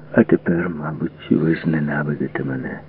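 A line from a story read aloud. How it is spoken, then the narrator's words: Quiet, doomed. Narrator (Ukrainian): сказав якось тихо і приречено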